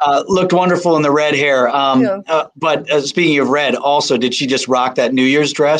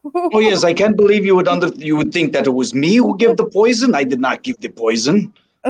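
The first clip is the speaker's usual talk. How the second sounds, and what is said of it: Impression of Dr. Rolf. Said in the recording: “Do you do a Dr. Rolf impersonation as well?”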